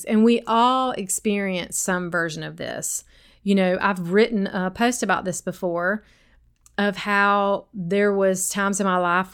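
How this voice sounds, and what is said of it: Sweet regional accent. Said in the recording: “even my accent was in my mind criticized ... I get so many comments from y'all about how sweet my accent is ... This is just how I talk.”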